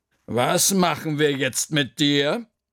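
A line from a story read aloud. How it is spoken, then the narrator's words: Thinking aloud. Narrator (German): überlegte Frau Krüger laut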